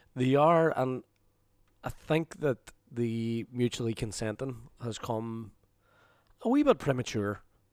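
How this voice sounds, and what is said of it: Hoarse, nearly lost voice. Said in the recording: “as you can probably hear from the jazz festival, my voice is completely gone, as it were ... it was from screaming last night”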